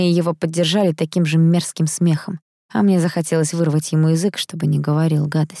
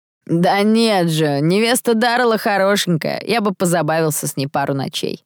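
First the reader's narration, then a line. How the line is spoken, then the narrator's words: Chuckle. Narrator (Russian): хохотнул кто-то из парней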